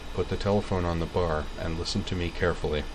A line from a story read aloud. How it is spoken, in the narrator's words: said in an undertone